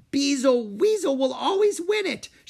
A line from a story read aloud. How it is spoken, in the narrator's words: she cried